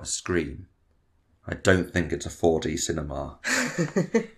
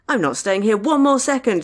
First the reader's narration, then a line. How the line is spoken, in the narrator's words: Deanna shrieked